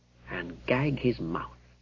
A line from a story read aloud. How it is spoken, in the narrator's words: The knight added grimly